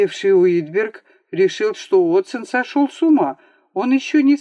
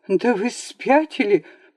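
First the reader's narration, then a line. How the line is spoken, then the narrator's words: Trembling babble. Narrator (Russian): пролепетал он дрожащим голосом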